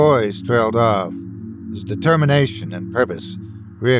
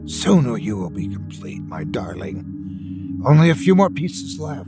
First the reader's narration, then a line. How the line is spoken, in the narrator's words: he whispered longingly